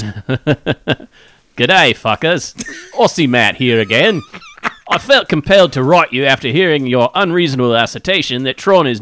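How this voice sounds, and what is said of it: Put-on Australian accent. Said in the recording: “I want to read it in an Australian accent. ... Let's let our Australian listeners see how well I do.”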